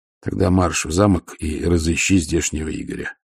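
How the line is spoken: Calm. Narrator (Russian): спокойно сказал Ваймс

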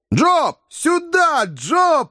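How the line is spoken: Shout. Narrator (Russian): кричал Сэм

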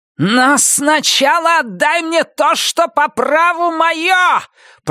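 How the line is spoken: Shrill inhuman scream. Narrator (Russian): пронзительно завопила Роза Морена совершенно нечеловеческим голосом

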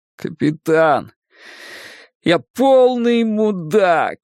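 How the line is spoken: Groaning. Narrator (Russian): простонал он

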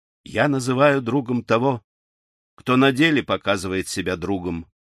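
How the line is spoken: Calm, firm young man. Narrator (Russian): ответил молодой вождь спокойно и твердо

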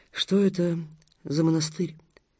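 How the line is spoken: Quiet question. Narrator (Russian): тихонько спросила она

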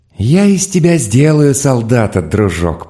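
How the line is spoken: Gently sinister voice. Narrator (Russian): произнес он ласково зловещим голосом

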